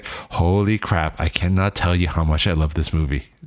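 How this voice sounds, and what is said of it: Semi-Asian accent imitating another person. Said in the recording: “Is that like a semi-Asian accent that you're speaking in? ... I'm imitating you.”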